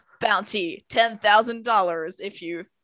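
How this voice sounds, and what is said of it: Put-on American Wild West accent. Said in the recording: “Okay, I'm really gonna stop that accent now. Anyway, sorry to our American viewers for that moment.”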